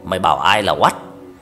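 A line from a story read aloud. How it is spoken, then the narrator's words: Child's hoarse rasping shout. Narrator (Vietnamese): Đứa bé tự nhiên quát lại bằng cái giọng ồm ồm re re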